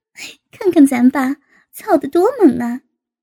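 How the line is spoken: Laughing. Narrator (Chinese): 高杰笑道

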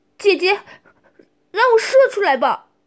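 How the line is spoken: Lustful desperate cry. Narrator (Chinese): 小白队长 被欲望驱使无法自拔，便喊出了

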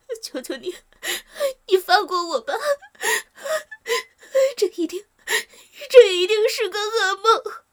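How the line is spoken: Crying. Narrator (Chinese): 小张这才哭着说

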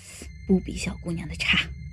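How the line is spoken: Murmuring. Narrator (Chinese): 老马喃喃地说

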